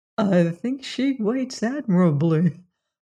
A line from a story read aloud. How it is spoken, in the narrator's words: murmured Lefferts aside to his host